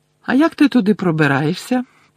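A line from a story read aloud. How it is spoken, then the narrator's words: Innocent-toned question. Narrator (Ukrainian): поцікавилася Герміона безневинним тоном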